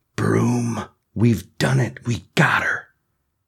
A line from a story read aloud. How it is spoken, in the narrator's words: whispers